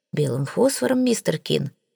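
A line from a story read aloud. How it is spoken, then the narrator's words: Sighing doctor. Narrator (Russian): вздохнул доктор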